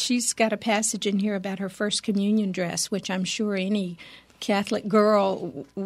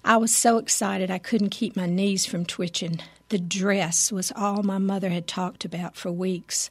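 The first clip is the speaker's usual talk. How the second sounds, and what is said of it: Put-on Southern drawl. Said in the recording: “I'll read it in a Southern drawl.”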